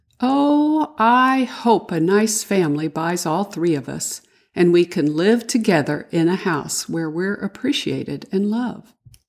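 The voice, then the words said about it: Wistful voice. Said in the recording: “in a wistful voice”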